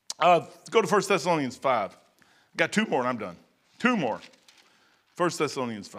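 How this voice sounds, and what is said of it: Strained, hoarse voice. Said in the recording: “I'm losing my voice.”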